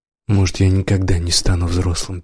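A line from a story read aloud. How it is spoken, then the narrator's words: Sad. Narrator (Russian): печально сказал Юра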